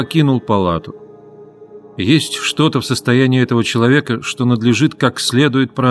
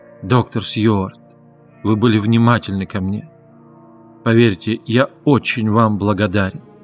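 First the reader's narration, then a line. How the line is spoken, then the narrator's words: Soft. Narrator (Russian): мягко сказал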